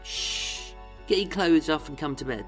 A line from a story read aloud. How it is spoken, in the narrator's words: Vera cooed